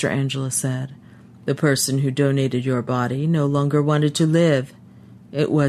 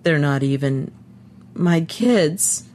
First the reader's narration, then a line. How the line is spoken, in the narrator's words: he said brokenly